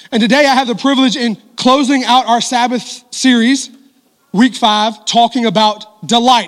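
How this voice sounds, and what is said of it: Sore, strained voice. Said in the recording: “My voice is very sore from the first service. But I'm going to give you everything I got until my voice goes out.”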